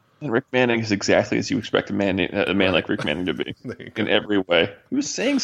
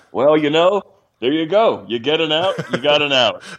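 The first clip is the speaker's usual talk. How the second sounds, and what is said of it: Imitates another person's voice. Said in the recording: “That was a great Rick Manning impression. I can hear it.”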